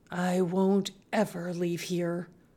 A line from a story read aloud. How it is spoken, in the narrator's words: she whispered